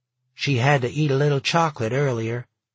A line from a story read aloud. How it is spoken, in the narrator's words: Pat said